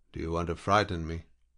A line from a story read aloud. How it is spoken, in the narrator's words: The lieutenant laughed harshly